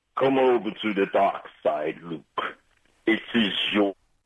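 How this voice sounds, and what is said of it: Darth Vader character impression. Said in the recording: “my Darth Vader impression ... Give us your Darth Vader”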